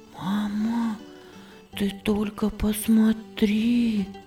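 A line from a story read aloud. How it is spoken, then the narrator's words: Whispering. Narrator (Russian): шептала Виргиния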